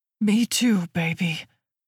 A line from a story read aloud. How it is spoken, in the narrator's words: grunts